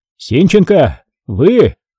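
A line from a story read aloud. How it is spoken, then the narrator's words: Shout. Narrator (Russian): прокричал Егорьев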